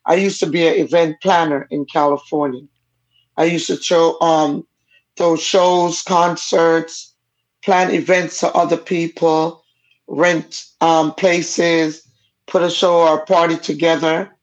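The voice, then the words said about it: Jamaican accent. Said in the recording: “my parents are both Jamaican. That's why the accent. My first language I learned to speak was Jamaican, so this is never going anywhere. ... It's a nice accent.”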